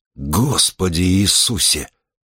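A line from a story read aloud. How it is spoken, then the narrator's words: Breathed out. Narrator (Russian): выдохнул он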